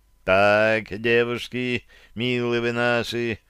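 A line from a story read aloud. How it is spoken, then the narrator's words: Deliberately calm. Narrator (Russian): начал я нарочито спокойно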